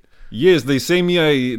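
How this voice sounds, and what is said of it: Put-on Russian accent. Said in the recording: “attempt a Putin accent ... Russian accent ... a funny accent”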